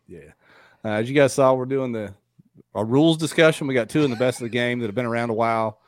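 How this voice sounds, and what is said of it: Rough, sick-sounding voice. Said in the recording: “If I sound rough, it's because I'm fighting off like the zebra variant of whatever's out there”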